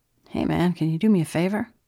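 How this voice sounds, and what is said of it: Casual, nonchalant tone. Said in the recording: “in his most nonchalant voice”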